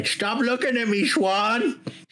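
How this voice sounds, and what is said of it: Adam Sandler impression. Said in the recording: “Excellent Adam Sandler. ... you should really start a career impersonator.”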